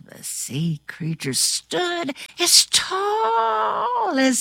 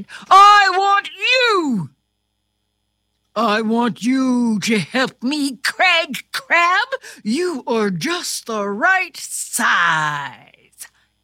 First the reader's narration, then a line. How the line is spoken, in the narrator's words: King Crab pointed right at Craig and shouted